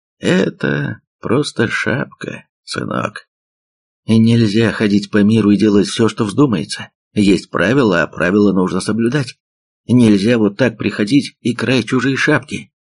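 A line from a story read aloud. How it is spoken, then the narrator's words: Very calm. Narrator (Russian): Капитан очень спокойно сказал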